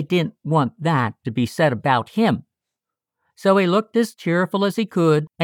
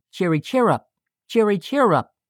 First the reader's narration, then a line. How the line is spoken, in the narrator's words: right merrily